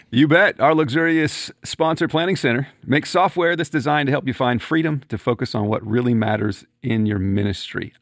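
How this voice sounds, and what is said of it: Announcer-style radio voice. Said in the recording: “I kick into my radio voice”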